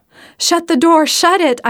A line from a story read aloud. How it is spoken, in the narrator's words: cried frantically